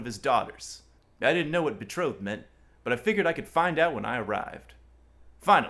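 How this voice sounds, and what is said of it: Usual voice. Nothing is said of it.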